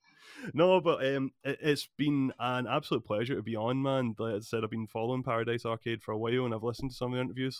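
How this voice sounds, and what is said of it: Accent like Mike Myers' Shrek voice. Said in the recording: “literally sounds like a terrible Mike Myers impersonation about a green man who lives in a certain swamp ... trying to regulate the speed in which I'm talking”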